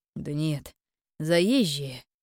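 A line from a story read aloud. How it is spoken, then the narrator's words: Mercenary's snort. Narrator (Russian): хмыкнул наемник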